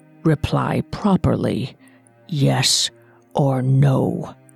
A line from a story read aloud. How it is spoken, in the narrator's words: the beast said quietly